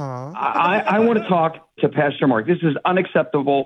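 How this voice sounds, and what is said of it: Upset, frustrated tone. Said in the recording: “I hear you're upset. I hear you're frustrated. ... Do I sound upset? ... I'm picking up some emotions”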